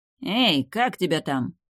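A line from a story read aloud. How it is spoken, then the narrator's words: Rough shout, warrior. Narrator (Russian): грубо окрикнул его один из воинов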